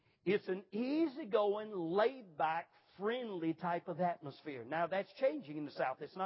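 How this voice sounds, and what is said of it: Usual voice. Nothing is said of it.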